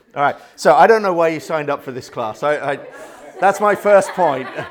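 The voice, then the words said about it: British accent. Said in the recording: “a British accent”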